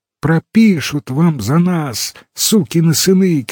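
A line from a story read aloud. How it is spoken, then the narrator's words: Shouting. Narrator (Russian): кричал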